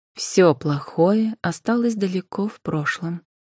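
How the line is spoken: Calm voice. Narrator (Russian): произнесла спокойным голосом Анфиса

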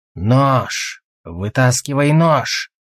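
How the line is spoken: Curt command. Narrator (Russian): отрывисто приказал он

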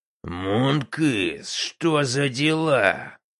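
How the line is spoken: Furious rasp. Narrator (Russian): Яростно прохрипел он

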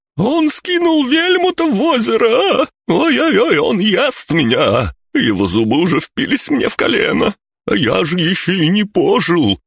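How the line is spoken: Sobbing lanky man. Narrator (Russian): зарыдал долговязый

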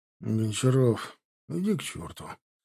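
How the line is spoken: Grumbled. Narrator (Russian): буркнул Димка

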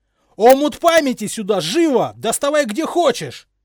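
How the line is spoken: Yelled. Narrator (Russian): заорал Гарри

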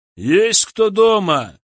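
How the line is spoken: Loud question. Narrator (Russian): громко спросил Николай

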